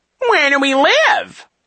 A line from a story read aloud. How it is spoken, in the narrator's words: He said in his high, mocking tone